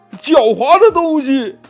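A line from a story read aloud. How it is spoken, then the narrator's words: Frightened, furious roar. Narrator (Chinese): 大狼先生吓得呀浑身发软，他怒吼一声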